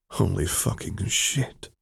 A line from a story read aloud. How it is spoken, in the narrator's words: Quinn whispered